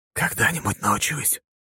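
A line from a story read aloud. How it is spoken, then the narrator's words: Whispered reply. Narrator (Russian): ответил шепотом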